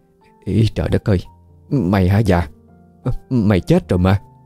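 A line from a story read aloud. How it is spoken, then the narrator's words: Trembling, shocked voice. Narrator (Vietnamese): cô Tư run run nói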